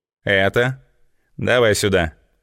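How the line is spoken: Calm demand. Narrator (Russian): спокойно потребовала Злата

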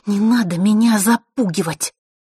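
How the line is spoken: Through teeth, struggling. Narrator (Russian): вырываясь, процедила Василиса

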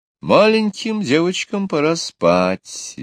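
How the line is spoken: Cheerful mother. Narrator (Russian): весело сказала мама

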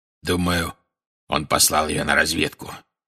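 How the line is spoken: Growl. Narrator (Russian): прорычал Грюм

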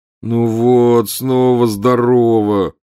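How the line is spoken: Groaning. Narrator (Russian): простонал Гарри

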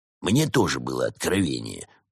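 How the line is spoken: Grumbled. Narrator (Russian): буркнул Проспер

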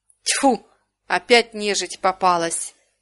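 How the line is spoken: Displeased growl. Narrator (Russian): недовольно рыкнул он

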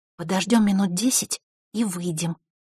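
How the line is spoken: Barely audible whisper. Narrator (Russian): еле слышно прошептала Василиса

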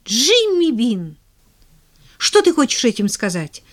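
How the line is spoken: Exclamation. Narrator (Russian): воскликнула Поллианна

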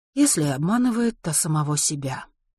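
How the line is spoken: Sighing. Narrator (Russian): вздохнула Лана

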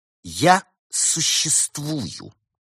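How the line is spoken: Girl speaking through teeth. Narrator (Russian): процедила девочка сквозь зубы

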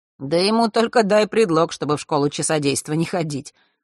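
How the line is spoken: Wry snort, slight frown. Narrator (Russian): хмыкнул Ник, слегка нахмурившись

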